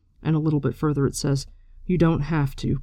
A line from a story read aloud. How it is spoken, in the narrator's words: Perrin said quietly